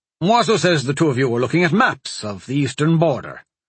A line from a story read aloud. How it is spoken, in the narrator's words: Shomas hastily add